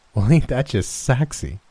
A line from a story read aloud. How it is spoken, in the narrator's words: She said, chuckling again